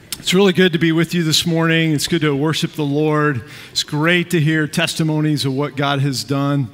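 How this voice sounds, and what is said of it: Slightly out of breath. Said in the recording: “a little out of breath”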